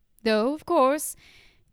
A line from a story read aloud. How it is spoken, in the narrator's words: he laughed tolerantly